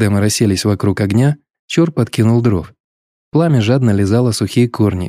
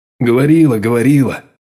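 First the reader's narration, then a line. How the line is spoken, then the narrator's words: Grumbling. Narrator (Russian): проворчал Алексей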